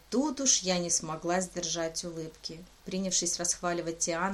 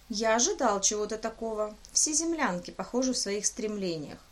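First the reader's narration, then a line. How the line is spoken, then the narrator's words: Cheerful, smiling. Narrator (Russian): император весело улыбнулся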